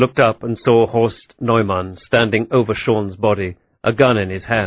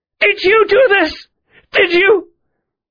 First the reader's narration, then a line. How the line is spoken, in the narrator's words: Mary screamed